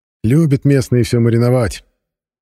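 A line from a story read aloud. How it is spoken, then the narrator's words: Wry snort. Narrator (Russian): хмыкнул Денис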